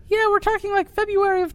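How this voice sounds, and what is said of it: Imitates another person's voice. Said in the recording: “my impression of Maddie ... She doesn't actually sound like that.”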